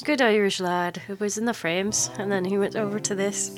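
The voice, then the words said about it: Put-on Irish accent. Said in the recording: “there's my Irish accent for you.”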